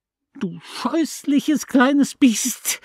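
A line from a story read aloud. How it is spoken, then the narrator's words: Loud wild trembling scream. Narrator (German): schrie sie Nancy an mit einer Stimme, die ich noch nie gehört hatte, eine laute, wilde, zitternde Stimme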